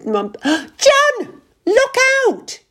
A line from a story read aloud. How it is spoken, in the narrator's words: yelled Ruth